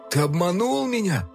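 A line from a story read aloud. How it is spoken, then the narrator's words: Tearful whisper. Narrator (Russian): сквозь слезы прошептал змей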